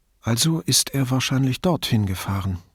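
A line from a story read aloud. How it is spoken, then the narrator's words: Plain. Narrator (German): sagte Federica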